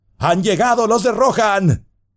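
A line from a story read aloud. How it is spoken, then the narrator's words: Men shouting, rousing from despair. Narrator (Spanish): los hombres despertaban del miedo y la desesperación, y se gritaban unos a otros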